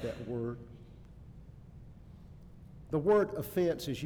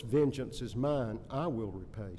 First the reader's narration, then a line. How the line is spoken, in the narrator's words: says the Lord